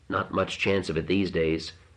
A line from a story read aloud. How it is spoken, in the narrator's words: she said in a dull, soft voice, meaning nothing